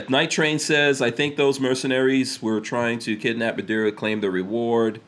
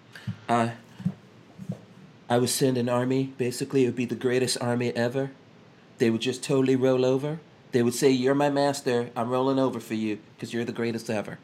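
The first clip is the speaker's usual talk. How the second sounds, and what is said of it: Imitates another person's voice. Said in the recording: “in my Trump voice”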